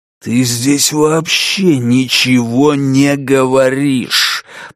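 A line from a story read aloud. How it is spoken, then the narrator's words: Growled. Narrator (Russian): прорычал мистер Гонт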